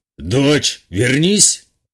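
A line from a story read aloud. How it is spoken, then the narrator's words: Growled command. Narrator (Russian): рыкнул отец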